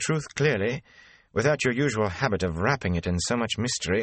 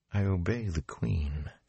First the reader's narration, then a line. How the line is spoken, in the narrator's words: she whispered